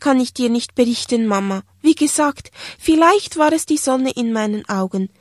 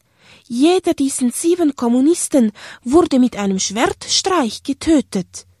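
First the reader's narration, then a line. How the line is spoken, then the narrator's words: Gentle male voice. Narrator (German): sagte er sanft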